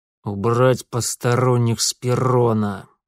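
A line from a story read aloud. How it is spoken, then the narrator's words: Through gritted teeth. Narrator (Russian): сквозь зубы процедил отец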